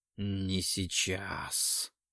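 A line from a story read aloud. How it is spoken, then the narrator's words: Growl through clenched teeth. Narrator (Russian): Прорычал сквозь стиснутые зубы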